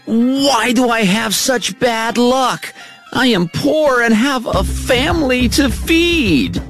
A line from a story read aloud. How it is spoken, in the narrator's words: He was angry and cried